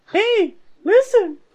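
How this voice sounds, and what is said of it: Impression of the fairy Navi. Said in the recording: “I'll do my best impression.”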